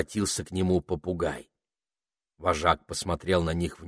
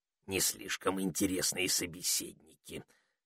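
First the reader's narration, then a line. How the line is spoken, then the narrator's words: Parrot's whisper in ear. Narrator (Russian): шепнул попугай на ухо Пенелопе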